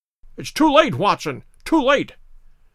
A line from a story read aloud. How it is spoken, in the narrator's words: cried Holmes